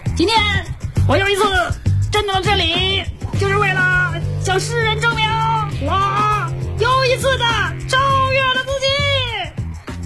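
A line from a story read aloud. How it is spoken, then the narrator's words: Sudden loud shout. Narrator (Chinese): 王大磊突然间在隔壁那屋里大声高喊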